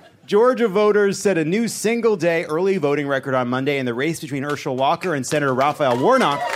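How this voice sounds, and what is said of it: Usual voice. Nothing is said of it.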